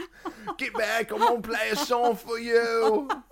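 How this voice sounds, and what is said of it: Put-on British accent. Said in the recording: “How come every time I do a musician, it's always some British guy? ... Every musician has a British accent now.”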